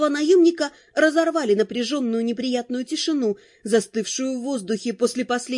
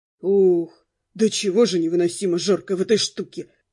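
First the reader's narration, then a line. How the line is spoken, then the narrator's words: Moaning. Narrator (Russian): простонал Дэн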